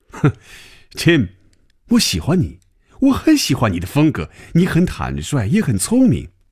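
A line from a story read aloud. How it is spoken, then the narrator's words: Smiling after laughter. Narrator (Chinese): 等他停住了笑声，嘴角仍然带着笑容说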